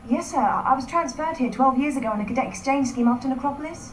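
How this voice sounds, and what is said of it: British accent. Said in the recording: “That a Brit sit accent?”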